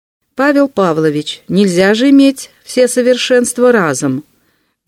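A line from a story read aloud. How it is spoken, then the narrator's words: Loud teasing. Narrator (Russian): громко поддразнила Мария Никитишна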